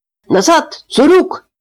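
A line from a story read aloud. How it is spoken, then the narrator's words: Frantic shouting crowd. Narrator (Russian): истошно кричали лагершутцы, фуэрарбайтеры, капо, блоковые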